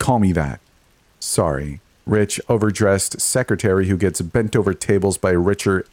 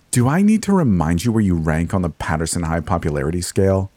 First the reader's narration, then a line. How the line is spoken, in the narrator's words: Maddie spat derisively